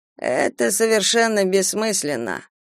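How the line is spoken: Tired. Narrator (Russian): устало произнес Кейран

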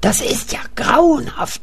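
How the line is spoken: Whispering. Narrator (German): flüstert Kurt

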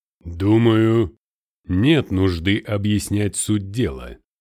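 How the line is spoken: Menacing heavy breathing. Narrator (Russian): сказал, грозно сопя

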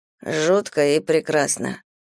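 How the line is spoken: Muttering. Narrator (Russian): бормочет Сава

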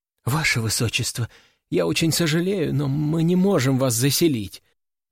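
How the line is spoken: Trembling young receptionist. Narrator (Russian): дрожащим голосом говорит мне миловидная девушка-администратор на ресепшене

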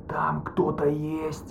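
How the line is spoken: Quiet whisper, muffled by mask. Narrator (Russian): Еще тише зашептал подводник, и его голос с трудом пробивался через маску

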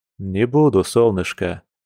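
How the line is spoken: Tender. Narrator (Russian): нежно произнес он

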